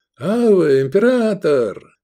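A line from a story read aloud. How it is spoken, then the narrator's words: Exclamation. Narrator (Russian): воскликнул преторианец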